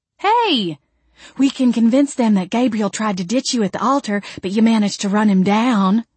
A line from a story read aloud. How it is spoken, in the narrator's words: Jolene said brightly